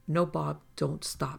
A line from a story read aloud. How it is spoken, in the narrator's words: said